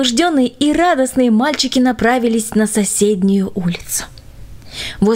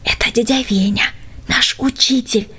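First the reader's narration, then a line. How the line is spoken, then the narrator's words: Whisper. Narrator (Russian): шепнул Юра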